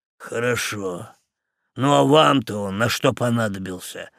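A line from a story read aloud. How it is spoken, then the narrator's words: Grumbling. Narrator (Russian): проворчал помощник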